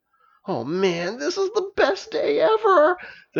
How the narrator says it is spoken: the dragon gleefully exclaimed

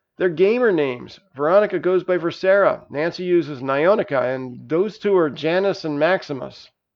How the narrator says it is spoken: Jerome happily answered

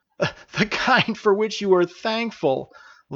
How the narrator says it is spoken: laughed Narayana

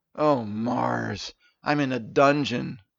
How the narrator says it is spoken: Steven muttered to himself

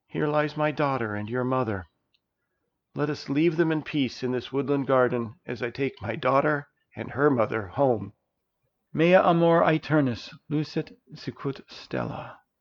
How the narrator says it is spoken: whispered Princess

